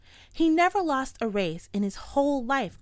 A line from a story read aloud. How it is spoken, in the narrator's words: cried the Muley Cow